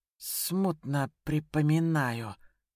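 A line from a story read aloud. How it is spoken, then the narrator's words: Slightly hoarse, slow. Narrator (Russian): ответил немного хрипло, медленно сглатывая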